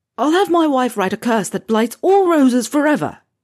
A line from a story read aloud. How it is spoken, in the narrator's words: yelled at the plant